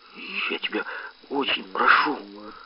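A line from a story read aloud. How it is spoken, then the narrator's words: Quiet speech. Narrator (Russian): сказал мне тихо Кутырев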